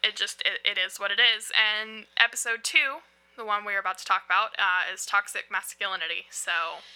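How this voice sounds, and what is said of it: Heavy Southern US accent. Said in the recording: “Heavy, heavy, heavy southern accent coming at you ... I'm from North Carolina”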